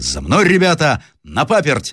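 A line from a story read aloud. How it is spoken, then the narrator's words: Shouted. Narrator (Russian): закричал Рославлев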